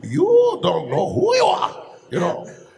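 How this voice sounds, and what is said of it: Cartoon character voice, swooping pitch. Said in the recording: “I can do that voice for you ... he goes very high, you know. And then he thinks very low ... You go up and down and all over the place.”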